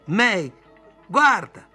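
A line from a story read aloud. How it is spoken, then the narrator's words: Woman screaming. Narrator (Italian): lei urlò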